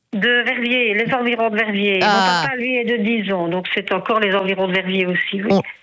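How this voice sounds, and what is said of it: Slight regional Belgian French accent. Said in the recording (French): “On l'entend au petit accent qu'on a.”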